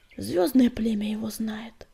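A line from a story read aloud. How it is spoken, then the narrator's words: Sigh. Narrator (Russian): вздохнул Огнегрив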